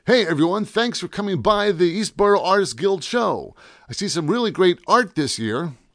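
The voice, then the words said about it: Announcer voice. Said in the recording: “In my best announcer voice,”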